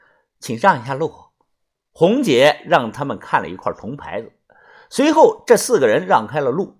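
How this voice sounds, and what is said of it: Usual voice. Nothing is said of it.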